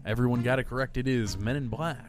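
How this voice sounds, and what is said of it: Game show host voice. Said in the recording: “How's my game show voice? ... It's great. ... It's pretty good.”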